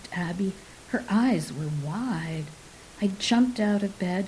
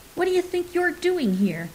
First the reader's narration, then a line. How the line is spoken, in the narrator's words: I blurted